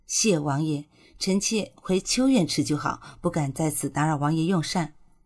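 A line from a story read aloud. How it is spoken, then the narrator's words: Sighing, reluctant. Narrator (Chinese): 顾欣欣……叹了口气，极不情愿地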